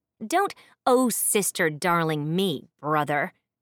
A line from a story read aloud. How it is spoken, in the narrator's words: snapped